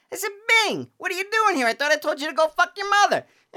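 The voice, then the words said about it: Goodfellas gangster character impression. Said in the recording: “my new Goodfellas impersonation ... the other Goodfellas impression”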